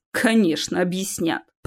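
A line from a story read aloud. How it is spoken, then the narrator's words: Muttering. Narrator (Russian): пробормотал Чес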